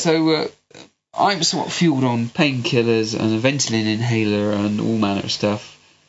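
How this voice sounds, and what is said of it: West Country accent, congested cold voice. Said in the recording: “my lovely West Country accent that I've been told I have, somewhat tempered by the fact that I have got a fucking horrible cold”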